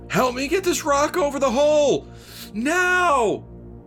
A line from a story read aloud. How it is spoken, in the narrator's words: Another guy yelled